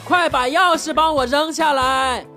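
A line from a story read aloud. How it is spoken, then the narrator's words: Wife shouting. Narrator (Chinese): 老婆喊了一句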